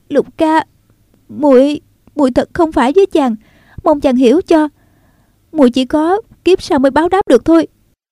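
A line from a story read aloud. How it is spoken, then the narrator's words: Trembling voice. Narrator (Vietnamese): Nàng nói giọng run run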